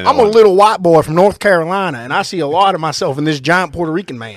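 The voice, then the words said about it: Put-on Carolina Southern accent. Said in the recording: “How do you like my Carolina accent? ... That was really good. You know what it sounds like? All the other Southern accents you do.”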